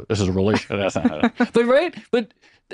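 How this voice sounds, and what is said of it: Mock banker voice. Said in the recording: “Do your banker impression again.”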